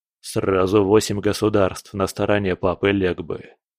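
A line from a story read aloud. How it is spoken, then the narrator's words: Grim report. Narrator (Russian): мрачно доложил скала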